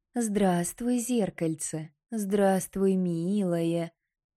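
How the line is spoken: Affectionate. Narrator (Russian): завела Марана ласково

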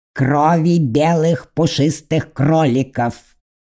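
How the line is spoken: Drawled. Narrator (Russian): протянул он

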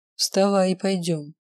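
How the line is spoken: Deep guttural command. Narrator (Russian): велел он своим утробным голосом

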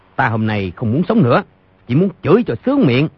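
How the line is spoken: Angry shout. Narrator (Vietnamese): Doãn Chí Bình tức giận quát

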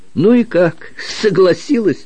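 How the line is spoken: Laughing loudly. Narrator (Russian): расхохотался лейтенант

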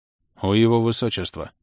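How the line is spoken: Sullen forced words. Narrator (Russian): хмуро выдавил Ингерт

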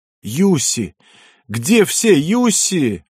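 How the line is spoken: Hoarse yell. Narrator (Russian): хрипло заорал

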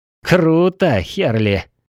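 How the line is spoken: Cleric's snort. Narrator (Russian): хмыкнул клерик

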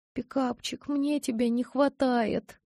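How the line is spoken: Whimpering. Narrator (Russian): проскулила я

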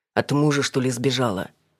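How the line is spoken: Driver smirking grunt. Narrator (Russian): хмыкнул таксист

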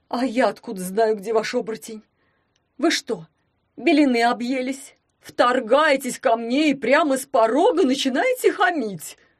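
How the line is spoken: Whiny exclamation. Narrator (Russian): Плаксиво воскликнул он

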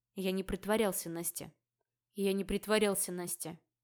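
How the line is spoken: Gloomy. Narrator (Russian): мрачно произнес сосед

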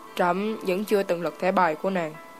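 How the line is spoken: Soft laughing speech. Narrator (Vietnamese): khẽ cười nói

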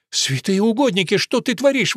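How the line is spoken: Exclamation. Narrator (Russian): воскликнула Кирис

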